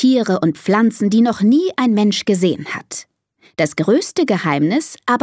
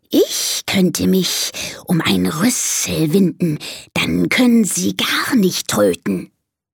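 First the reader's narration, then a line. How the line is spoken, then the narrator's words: Hissing snake. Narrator (German): zischt die Schlange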